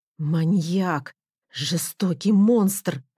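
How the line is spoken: Hissed through teeth. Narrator (Russian): процедила я сквозь зубы

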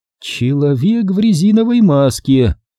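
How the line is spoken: Singsong. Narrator (Russian): нараспев произнесла Элейн

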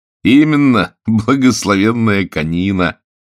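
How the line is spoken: Laughing. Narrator (Russian): засмеялся журналист с трубкой

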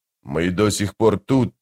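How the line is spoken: Through clenched teeth. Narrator (Russian): процедил быстрый Бен

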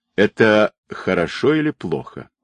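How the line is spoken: Mocking question. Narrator (Russian): насмешливо спросил Ли

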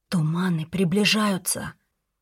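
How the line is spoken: Whisper. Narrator (Russian): прошептала Нелли

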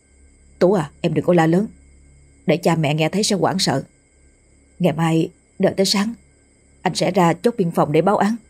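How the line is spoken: Low-voiced instruction. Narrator (Vietnamese): Anh hạ giọng dặn dò

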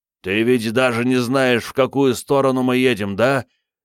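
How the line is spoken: Shouted. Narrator (Russian): крикнул Крейг Бенедикту

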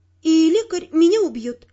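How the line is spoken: Sighing. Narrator (Russian): вздохнула я

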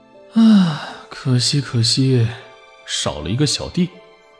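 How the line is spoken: Sighing mutter. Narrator (Chinese): 燕京华扼腕叹息，嘟嘟囔囔的

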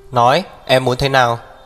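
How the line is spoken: Cold barked demand. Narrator (Vietnamese): Hắc Viêm Triệt lại lạnh lùng quát

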